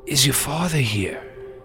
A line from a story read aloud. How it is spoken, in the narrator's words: Frankie looked pale, he says, in a weak voice